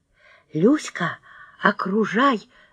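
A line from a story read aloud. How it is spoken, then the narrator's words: Whispered. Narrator (Russian): зашептала я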